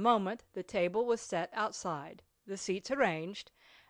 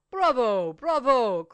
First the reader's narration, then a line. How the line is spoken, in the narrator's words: cried the masons